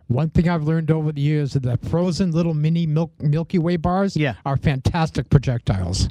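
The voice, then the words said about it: Heavy Boston accent. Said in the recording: “Got a heavy accent. ... He's from Boston.”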